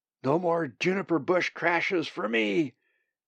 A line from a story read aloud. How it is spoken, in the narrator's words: shouted into his roaring slipstream